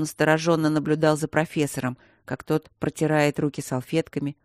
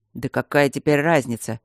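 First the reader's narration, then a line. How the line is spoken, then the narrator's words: Sullen grumbling. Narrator (Russian): угрюмо пробурчал семикурсник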